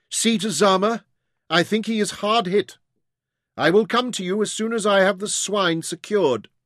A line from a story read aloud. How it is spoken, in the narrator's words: Jim shouted